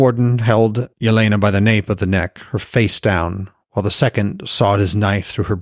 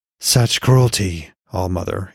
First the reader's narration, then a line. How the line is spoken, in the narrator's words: Yelena said, her voice a wet rasp